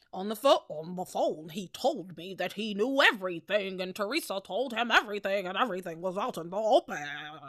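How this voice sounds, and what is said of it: Impression of Harper. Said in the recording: “my Harper impression”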